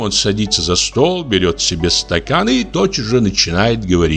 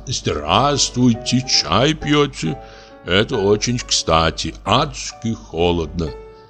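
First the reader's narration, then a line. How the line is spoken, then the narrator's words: Velvety bass. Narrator (Russian): медленно снимает перчатки и говорит бархатным басом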